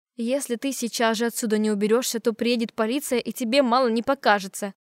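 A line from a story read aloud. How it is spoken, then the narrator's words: Hissing. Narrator (Russian): зашипела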